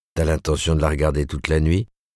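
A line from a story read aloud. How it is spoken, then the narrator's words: Gruff. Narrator (French): dit-il d'un ton bourru à Joe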